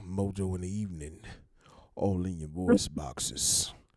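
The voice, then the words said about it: Deep baritone radio DJ voice. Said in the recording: “radio voice ... my deep baritone Barry White imitation”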